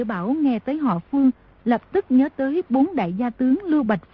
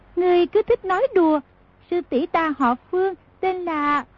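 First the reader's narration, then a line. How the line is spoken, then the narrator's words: Smiling. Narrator (Vietnamese): mỉm cười nói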